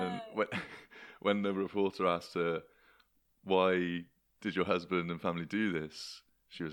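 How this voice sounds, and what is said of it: Usual voice. Nothing is said of it.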